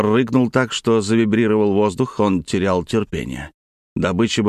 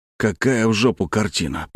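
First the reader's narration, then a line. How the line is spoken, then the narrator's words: Mutter aloud. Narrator (Russian): пробормотал вслух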